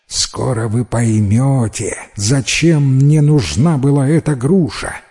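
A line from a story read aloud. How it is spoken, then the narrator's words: Plain, old man. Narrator (Russian): ответил старик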